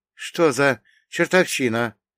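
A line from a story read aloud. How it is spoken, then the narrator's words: Frightened breathless gasp. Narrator (Russian): испуганно выдохнул водитель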